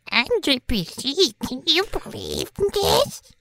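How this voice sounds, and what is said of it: Imitates another person, childish boy voice. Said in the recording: “I was going to do an impression of you ... You're both doing the same 8-year-old boy.”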